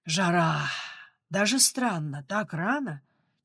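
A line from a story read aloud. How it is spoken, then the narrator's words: Heavy exhale. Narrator (Russian): тяжело выдохнул Степан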